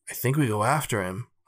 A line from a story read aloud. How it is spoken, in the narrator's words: Greg whispered